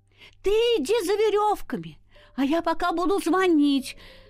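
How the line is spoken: Mother shouting from underground. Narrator (Russian): крикнула опять мама из-под земли

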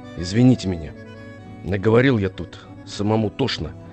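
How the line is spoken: Quiet, subdued. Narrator (Russian): тихо сказал

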